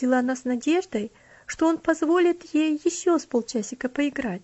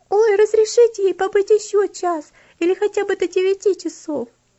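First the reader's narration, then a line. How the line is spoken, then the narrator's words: Several voices suddenly pleading. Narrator (Russian): несколько голосов вдруг взмолилась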